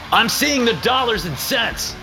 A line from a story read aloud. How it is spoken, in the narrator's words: I yell back over the music